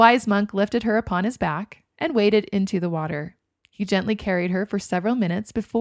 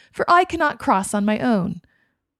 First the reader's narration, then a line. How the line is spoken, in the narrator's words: she eagerly demanded